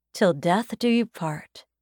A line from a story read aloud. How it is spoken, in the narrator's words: Daisy says quietly